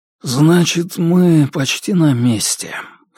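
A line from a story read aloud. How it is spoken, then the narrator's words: Hoarse, throat clearing. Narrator (Russian): хрипло сказал он, откашлялся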